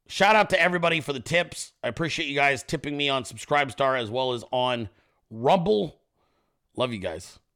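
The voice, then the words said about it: Strained, nearly lost voice. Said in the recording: “My voice is almost gone.”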